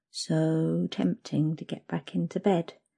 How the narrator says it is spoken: you murmur

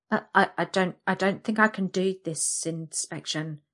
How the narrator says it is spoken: I stammer

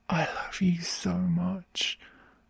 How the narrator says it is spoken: I whisper into his ear through my gasps

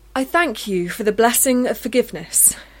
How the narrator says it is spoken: she said loudly

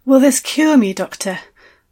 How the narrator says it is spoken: asked, breathlessly

